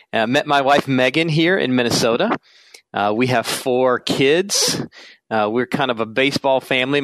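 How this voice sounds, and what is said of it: South Carolina accent. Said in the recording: “I'm originally from South Carolina, so you may hear that in my voice”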